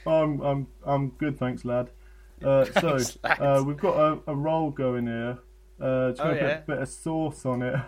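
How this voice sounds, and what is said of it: Imitates another person's accent. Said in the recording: “it sounds like you were doing his accent”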